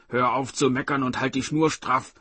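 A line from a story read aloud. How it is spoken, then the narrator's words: Barked retort. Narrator (German): bellte zurück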